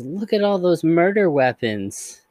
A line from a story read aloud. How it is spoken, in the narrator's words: cheerfully says